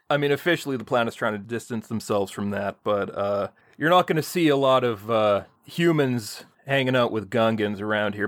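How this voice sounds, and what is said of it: Character voice with put-on accent. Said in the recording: “you might be able to tell by the accent, but they beat the Gungan right out of me”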